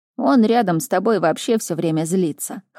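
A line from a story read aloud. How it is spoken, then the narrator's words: Chuckling. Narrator (Russian): хохотнул Мур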